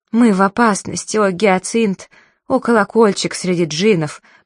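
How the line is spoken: Moan. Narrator (Russian): простонал Абдулла

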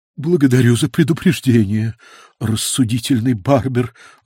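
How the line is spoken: Breathy exhale. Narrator (Russian): выдохнула она

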